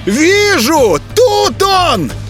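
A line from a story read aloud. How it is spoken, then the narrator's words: Yelling. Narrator (Russian): завопил воропай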